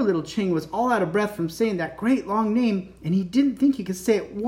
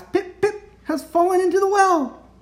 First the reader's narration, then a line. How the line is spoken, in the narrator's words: gasped